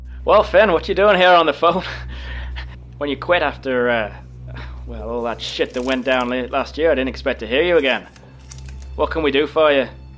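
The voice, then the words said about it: Put-on Irish accent. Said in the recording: “did you have to do an Irish accent?”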